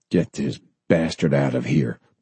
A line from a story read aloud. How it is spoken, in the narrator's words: Bob snapped